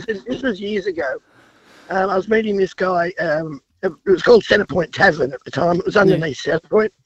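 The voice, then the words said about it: Congested, sick-sounding voice. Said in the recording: “sorry about the voice. I've got a cold.”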